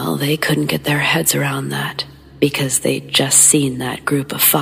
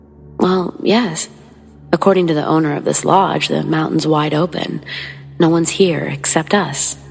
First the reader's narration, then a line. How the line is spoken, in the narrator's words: the clerk replied